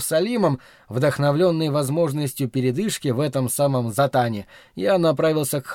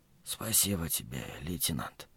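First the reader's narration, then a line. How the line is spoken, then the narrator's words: Whispered. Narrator (Russian): прошептал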